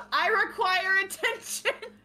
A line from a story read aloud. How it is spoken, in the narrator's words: Dune's gonna shout